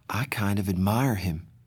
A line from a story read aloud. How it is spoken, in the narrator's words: Cherry said softly, so only I heard